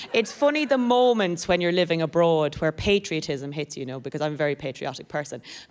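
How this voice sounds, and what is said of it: Irish accent. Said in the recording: “This is an accent, not an accident, but I am from Ireland.”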